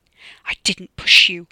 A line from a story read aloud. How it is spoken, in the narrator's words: he snarled through gritted teeth